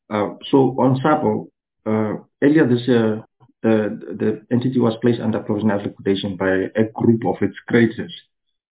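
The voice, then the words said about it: Sick, flu-affected voice. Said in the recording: “Excuse my voice, I'm catching on flu.”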